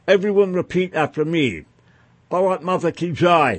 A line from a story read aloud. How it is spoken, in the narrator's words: he shouted